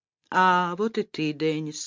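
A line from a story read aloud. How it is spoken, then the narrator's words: Dull, listless voice. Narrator (Russian): сказала его жена, все тем же своим тусклым и вялым голосом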